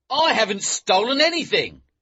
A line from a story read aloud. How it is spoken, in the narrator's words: he shouted